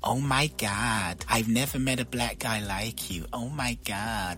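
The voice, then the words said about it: Impression of gushing American woman. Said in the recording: “I love your impression.”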